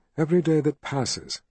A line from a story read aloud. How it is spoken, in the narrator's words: he said quietly at last